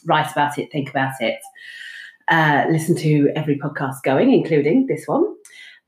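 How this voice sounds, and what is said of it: British accent. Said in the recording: “British, as you can tell from the accent”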